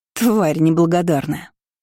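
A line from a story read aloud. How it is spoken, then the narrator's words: Scornful snort. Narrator (Russian): фыркнула Киора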